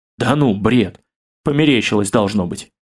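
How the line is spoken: Sighing. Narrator (Russian): Осип Михайлович вздохнул

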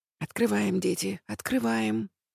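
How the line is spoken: Quick quiet whisper. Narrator (Russian): артистический директор тихо-быстро шепчет

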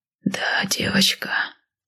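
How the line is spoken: Whisper. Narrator (Russian): шепнул он

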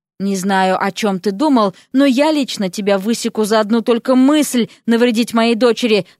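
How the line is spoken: Plain. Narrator (Russian): сказал ему Кощеев

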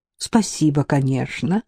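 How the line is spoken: Very pleased mutter. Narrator (Russian): страшно довольная пробормотала Алена

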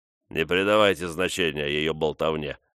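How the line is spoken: Plain. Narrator (Russian): сказал Корнелл

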